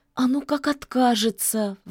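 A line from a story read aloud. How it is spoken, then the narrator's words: Witch sighing. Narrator (Russian): вздохнула ведьма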